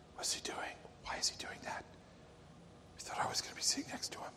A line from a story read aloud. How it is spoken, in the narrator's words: murmuring